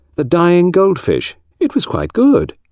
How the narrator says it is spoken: said kindly

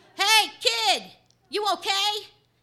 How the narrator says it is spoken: yells

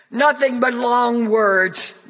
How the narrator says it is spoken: Joaquin complained loudly

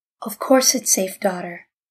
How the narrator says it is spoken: he said quietly to Malka

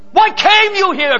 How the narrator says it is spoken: cried out a man

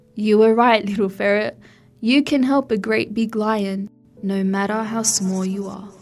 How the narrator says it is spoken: Laith laughed and said

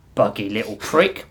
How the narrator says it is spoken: Hallgrim muttered

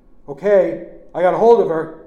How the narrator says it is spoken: Uncle Chick shouted

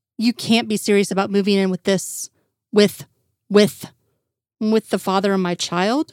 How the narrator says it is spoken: sighed

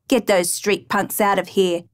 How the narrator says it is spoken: old-timer growled

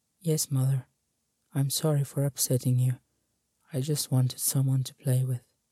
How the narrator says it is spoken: he softly said, with slight tears in his eyes

